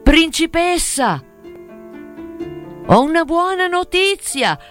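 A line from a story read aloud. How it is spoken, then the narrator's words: Shout. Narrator (Italian): Gridò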